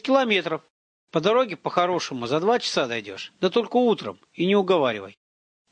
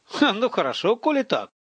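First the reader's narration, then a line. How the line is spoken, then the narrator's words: Laughing. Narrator (Russian): рассмеялся Иваныч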